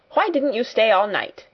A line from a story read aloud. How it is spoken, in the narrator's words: she snapped